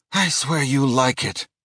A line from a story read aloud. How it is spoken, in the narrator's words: Johnny sighed